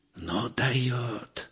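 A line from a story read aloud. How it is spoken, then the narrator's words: Mock-admiring whisper. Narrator (Russian): прошептал в притворном восхищении Михайлыч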